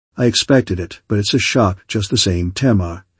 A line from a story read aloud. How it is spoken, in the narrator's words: he said softly